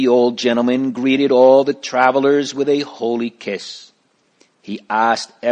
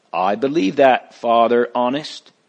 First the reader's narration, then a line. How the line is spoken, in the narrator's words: Great Heart said